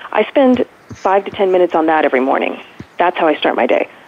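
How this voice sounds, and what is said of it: Very fast speech. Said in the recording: “so I'm talking really fast.”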